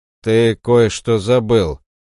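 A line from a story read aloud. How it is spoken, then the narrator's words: Scoffing snort. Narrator (Russian): хмыкнул он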